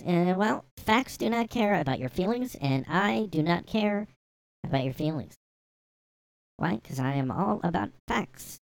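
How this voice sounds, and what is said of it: Slightly nasal Ben Shapiro impression. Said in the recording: “Ben Shapiro ... You just do that, like, higher, like, nasally voice. It's not really as high as this. It's kind of, like, just a little nasally.”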